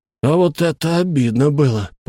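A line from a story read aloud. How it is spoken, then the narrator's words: Through gritted teeth. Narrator (Russian): процедил он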